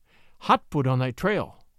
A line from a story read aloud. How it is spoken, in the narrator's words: said the wolf, panting